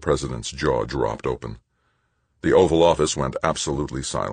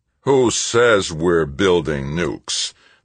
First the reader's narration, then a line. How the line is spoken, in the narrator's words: the chief of staff growled